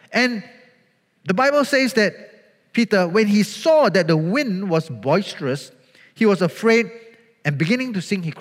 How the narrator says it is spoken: he cried out

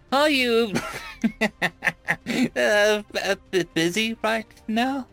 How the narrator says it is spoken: She said, mirth evident in her shaking voice as she tried to not burst out into another fit of laughter

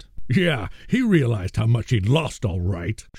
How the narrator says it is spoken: Schuster growled

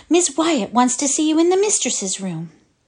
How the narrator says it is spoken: said the little girl, gasping

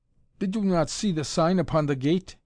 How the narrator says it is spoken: he demanded angrily, in curiously stilted English

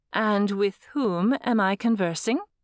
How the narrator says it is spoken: In her most regal tone, she asked

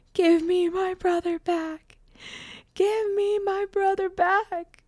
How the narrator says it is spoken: Janet started screaming over and over

